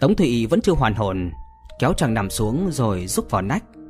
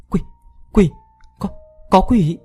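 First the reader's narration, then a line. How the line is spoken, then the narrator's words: Terrified trembling stammer. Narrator (Vietnamese): Tống Tụy hồn phi phách tán, rú lên, run như cầy sấy, miệng lắp bắp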